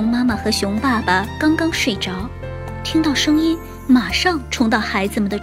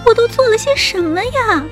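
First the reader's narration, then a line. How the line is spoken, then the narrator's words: Screaming. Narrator (Chinese): 小熊妹妹尖叫着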